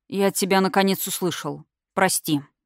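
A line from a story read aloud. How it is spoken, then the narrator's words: Dull, muffled voice. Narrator (Russian): глухо произнес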